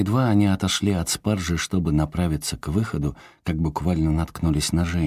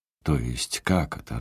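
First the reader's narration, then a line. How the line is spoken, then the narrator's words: Irritated question. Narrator (Russian): раздраженно переспросил Анри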